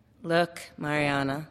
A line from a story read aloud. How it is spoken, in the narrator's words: Lucia says in a tired tone of voice